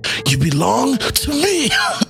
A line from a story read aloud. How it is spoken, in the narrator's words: The original bellowed